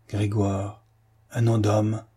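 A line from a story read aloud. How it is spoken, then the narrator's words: Old man, muffled voice. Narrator (French): articula le vieux d'une voix sourde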